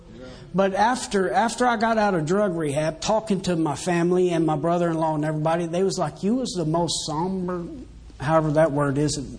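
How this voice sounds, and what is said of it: Strong noticeable accent. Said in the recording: “My accent came out real bad.”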